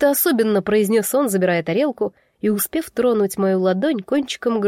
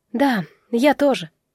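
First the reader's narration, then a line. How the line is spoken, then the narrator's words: Sighing. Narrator (Russian): вздохнула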